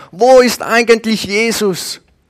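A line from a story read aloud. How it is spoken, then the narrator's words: Another voice calling. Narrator (German): plötzlich ruft noch ein anderer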